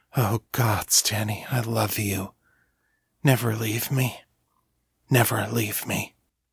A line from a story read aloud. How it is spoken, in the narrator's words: post-coital bliss, he whispered